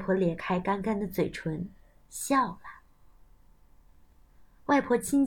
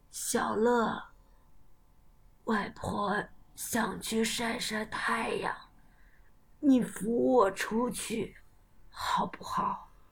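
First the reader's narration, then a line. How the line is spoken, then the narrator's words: Grandmother speaking. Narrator (Chinese): 外婆对小乐说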